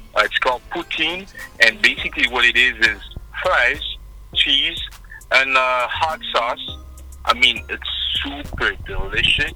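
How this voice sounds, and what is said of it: Strong French accent. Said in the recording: “as you can probably tell by my accent, I mean, I have a pretty strong French accent.”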